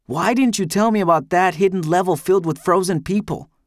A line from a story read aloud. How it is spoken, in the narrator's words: I shout back